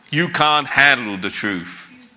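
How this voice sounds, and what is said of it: Put-on American accent. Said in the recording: “I'm going to try my best to put on an American accent. Please forgive me.”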